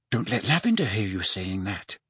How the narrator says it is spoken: Hermione turned faintly pink, but merely said

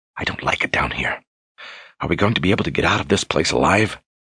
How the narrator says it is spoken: Kaelin whispered

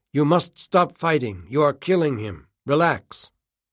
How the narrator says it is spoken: The doctor who delivered him, whom Campbell now remembered had a German accent, had barked at Campbell's mother, saying

